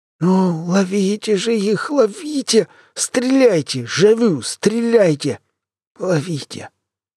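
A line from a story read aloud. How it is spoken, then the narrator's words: Weak wheezing scientist. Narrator (Russian): хрипел ученый слабым голосом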